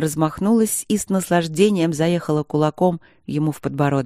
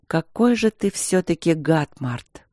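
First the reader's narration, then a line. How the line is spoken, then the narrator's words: Weary. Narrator (Russian): сказала она устало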